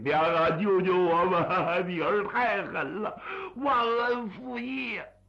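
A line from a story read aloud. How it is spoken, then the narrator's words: Sobbing plea. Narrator (Chinese): 一行鼻涕两行眼泪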